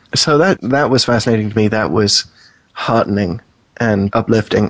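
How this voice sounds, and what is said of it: Non-American, likely British accent. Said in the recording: “you can probably tell from my accent, I'm not from the U.S. ... That's why I left the UK.”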